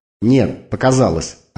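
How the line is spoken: Snapping retort. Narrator (Russian): огрызнулась Викса

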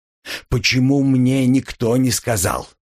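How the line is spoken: Angry growl. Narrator (Russian): зарычал Ньеман, срывая злость на коллеге

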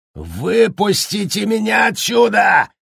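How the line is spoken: Furious yelling. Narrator (Russian): в ярости орал Джек

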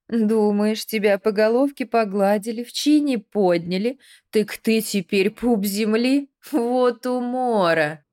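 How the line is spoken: Mocking laughter. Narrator (Russian): Двойник расхохотался

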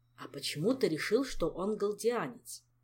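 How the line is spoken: Exasperated question. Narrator (Russian): спросил, наконец, Шелар, отчаявшись выдавить хоть какую-то особую примету

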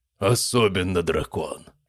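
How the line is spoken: Booming voice. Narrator (Russian): прогремел Грам

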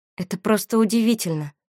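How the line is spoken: Mumbling. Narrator (Russian): пробормотала Валерия

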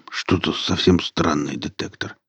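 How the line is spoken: Muttered. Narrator (Russian): пробормотал Велес

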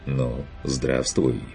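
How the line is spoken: Quiet greeting. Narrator (Russian): поприветствовал Каспар негромко

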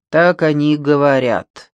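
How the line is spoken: Gloomy reply. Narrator (Russian): мрачно ответил

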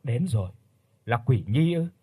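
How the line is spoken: Soft muttering, old man. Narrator (Vietnamese): Ông Hưng khẽ lẩm bẩm

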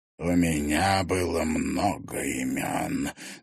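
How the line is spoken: Hoarse muffled voice. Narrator (Russian): донесся из-под капюшона хриплый голос

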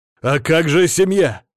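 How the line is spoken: Shout. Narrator (Russian): выкрикнул я

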